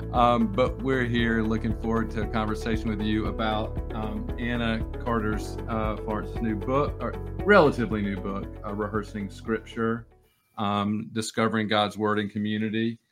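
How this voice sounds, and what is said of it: North Carolina accent. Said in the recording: “You got two North Carolina accents today.”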